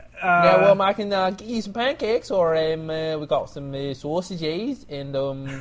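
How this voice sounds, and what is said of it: Put-on British accent. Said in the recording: “Oh shit, that's British. ... Are you mocking my accent?”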